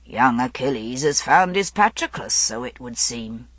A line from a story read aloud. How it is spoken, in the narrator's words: Ectorius chuckled and said